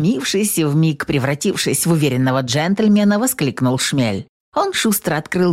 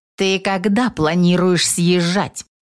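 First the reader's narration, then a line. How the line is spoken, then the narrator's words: Menacing witch. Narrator (Russian): грозно спросила ведьма дружка Марата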